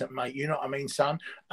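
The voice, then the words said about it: Put-on Cockney accent. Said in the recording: “I can speak with Cockney accent”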